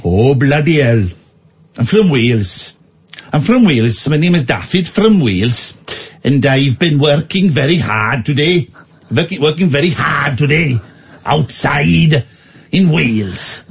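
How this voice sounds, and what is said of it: Put-on Welsh accent. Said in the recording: “let's try Welsh ... That's actually good. That's actually a good one.”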